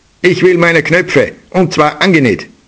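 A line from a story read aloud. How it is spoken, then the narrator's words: Angry shout. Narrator (German): rief ärgerlich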